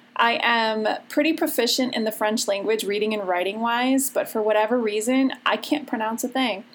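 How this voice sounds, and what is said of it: Chicago accent. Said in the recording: “my Chicago accent”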